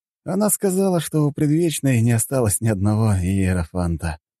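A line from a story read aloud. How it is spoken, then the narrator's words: Tired. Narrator (Russian): устало проговорил я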